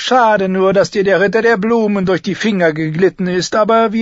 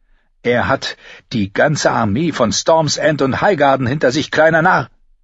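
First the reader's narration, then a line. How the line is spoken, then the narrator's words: Angry hiss from above. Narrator (German): fauchte Cersei von oben an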